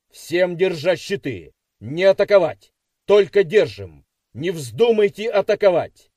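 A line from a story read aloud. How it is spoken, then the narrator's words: Shout. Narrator (Russian): крикнул Трубецкому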